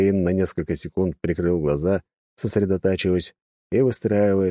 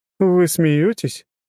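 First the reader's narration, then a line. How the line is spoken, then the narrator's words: Snorting. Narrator (Russian): фыркнула его спутница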